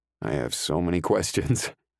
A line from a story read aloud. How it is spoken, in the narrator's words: I chuckle